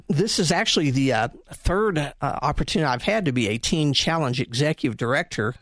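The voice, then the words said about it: Southern US accent. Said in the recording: “my southern accent. I carry that with me pridefully”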